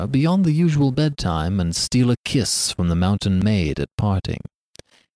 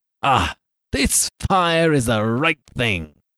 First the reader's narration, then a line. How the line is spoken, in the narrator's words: cried he